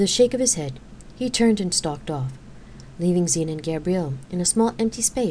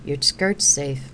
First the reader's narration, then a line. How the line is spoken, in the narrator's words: she announced dryly